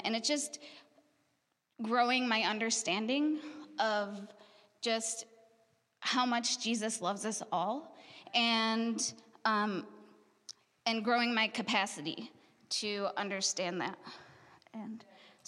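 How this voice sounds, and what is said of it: Shaky, emotional voice. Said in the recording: “my voice is shaking.”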